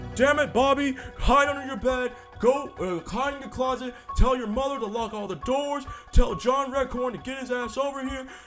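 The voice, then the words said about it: Cartoon character impersonation voice. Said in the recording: “my Hank Hill impersonation.”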